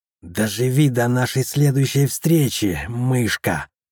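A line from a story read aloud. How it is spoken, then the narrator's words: Growled. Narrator (Russian): прорычала Вхагар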